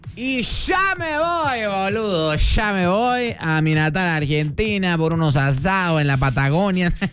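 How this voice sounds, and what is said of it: Weak put-on Argentine Spanish accent. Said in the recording (Spanish): “Ese acento argentino, ¿no? ... No me salió nadita”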